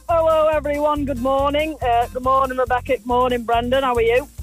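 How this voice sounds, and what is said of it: Barnsley accent. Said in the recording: “that doesn't sound like a Raheny accent. ... It's a Barnsley accent.”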